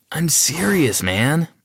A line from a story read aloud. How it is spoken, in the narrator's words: I whined